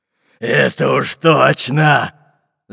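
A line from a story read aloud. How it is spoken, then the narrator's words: Growling gang leader. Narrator (Russian): зарычал рыжебородый главарь шайки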